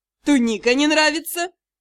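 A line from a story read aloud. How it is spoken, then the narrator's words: Mocking question. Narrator (Russian): Насмешливо поинтересовался магистр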